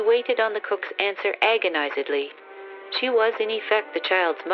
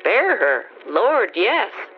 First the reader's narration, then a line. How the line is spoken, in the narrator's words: answered the cook calmly